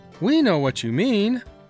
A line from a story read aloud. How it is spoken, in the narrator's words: exclaimed Ewan